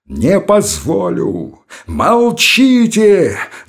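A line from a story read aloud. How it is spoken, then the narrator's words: Piercing anguished shout. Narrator (Russian): закричал он пронзительным страдальческим голосом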